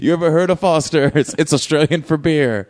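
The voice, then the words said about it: Imitates another person's voice. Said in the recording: “That's my Chance the Rapper impression... It's pretty good.”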